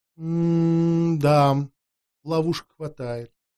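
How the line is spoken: Soft agreement, older woman. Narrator (Russian): мягко согласилась старшая вампирша

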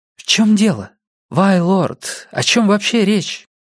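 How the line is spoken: Uncertain. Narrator (Russian): Аида неуверенно сказала

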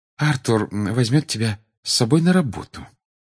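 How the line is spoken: Soft reply. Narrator (Russian): мягко ответила она

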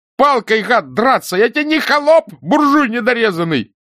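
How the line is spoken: Thin offended shout. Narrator (Russian): закричал тонким, обиженным голосом Рыжий

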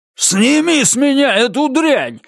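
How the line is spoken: Angry yelling. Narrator (Russian): заорал он на Розу

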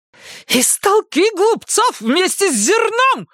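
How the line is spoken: Shrieked. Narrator (Russian): взвизгнула она

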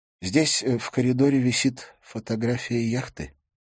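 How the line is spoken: Sigh. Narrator (Russian): вздохнул он

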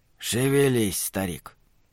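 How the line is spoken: Soft, to himself. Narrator (Russian): мягко сказал он себе

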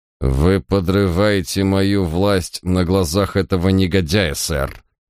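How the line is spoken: Gritted teeth, trembling with rage. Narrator (Russian): процедил он дрожащим от бешенства голосом

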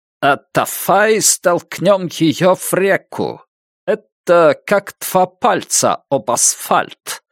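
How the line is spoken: Echo, German accent. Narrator (Russian): заговорил отголосок с немецким акцентом

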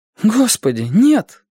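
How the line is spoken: Exclamation. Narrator (Russian): воскликнула девушка

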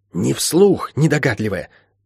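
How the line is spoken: Hiss from behind. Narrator (Russian): прошипела откуда-то из-за спины волка

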